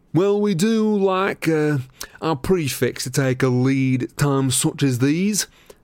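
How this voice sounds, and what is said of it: Pompous imitated voice. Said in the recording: “in a good imitation of Percy's most pompous manner”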